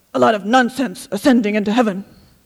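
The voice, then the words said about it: Scottish accent, dramatic manner. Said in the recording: “from Scotland ... let me see if I can get his wonderful accent and dramatic manner right”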